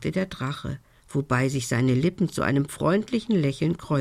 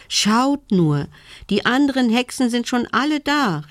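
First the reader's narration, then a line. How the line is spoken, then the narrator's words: Excited call. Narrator (German): rief sie aufgeregt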